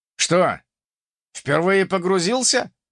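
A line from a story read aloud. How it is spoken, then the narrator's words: Wry grunt. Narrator (Russian): хмыкнул персонаж с ником Ультиматор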